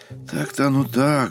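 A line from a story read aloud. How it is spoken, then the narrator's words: Sighed. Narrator (Russian): вздохнул Устинов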